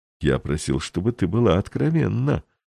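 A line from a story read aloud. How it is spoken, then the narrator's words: Gentle reproach. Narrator (Russian): мягко упрекнул граф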